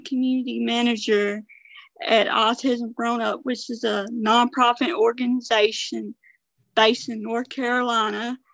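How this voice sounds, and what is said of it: Southern American accent. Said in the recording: “you have this gorgeous Southern accent”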